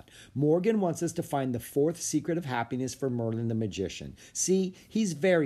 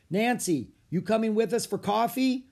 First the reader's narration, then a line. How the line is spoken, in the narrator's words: Tony yelled